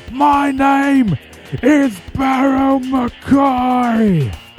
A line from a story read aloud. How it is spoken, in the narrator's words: he screams